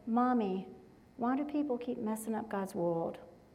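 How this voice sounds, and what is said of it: Sweet little child's voice. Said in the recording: “in his sweet little voice”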